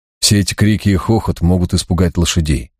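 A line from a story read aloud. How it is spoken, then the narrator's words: Soft. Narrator (Russian): мягко заметил я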